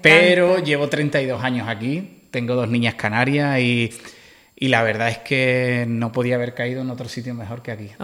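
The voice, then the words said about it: Andalusian Spanish accent from Cádiz. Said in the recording (Spanish): “por tu acento yo creo que canario no eres ... Soy de Cádiz ... De Algeciras”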